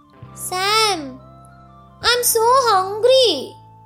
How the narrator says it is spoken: cried

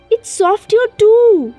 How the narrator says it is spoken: he cried

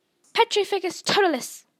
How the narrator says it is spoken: she cried

